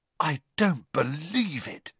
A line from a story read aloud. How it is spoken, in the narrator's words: Ron said in a stunned voice